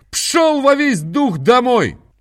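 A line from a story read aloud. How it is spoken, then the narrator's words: Shouting in strange voice. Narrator (Russian): закричал кучеру не своим голосом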